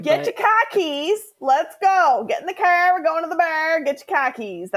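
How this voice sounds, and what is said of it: Weak attempt at Boston accent. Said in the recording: “I can't really do a Boston accent ... I mean, we all know I can't either ... It would just sound like some German boy ... That's as good as I could get it”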